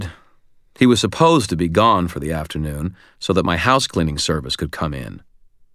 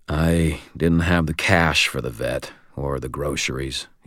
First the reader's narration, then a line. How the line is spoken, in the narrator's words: he said